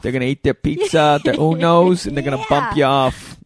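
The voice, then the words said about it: Put-on Chicago Italian-style accent. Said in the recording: “I don't do a Chicago accent. ... No, it was like Italian city. ... no, it was good. I like it.”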